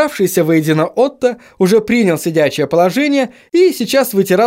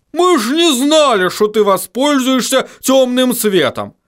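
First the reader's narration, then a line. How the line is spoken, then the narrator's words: Barked gruff retort. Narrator (Russian): рявкнул хороша гора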